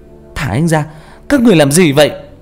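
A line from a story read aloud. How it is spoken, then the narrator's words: Urgent shout. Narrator (Vietnamese): Nguyễn Cơ thấy vậy vội hét lên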